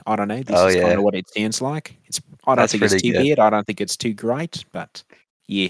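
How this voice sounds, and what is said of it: Put-on New Zealand accent. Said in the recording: “I have a good New Zealand accent, I think. My New Zealand accent almost comes out as like a second personality ... I do the New Zealand accent like I do a character ... I'm going to do my New Zealand accent”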